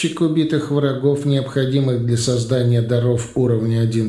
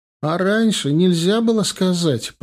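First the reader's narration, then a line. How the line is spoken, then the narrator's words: Groaning. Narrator (Russian): простонала Алиса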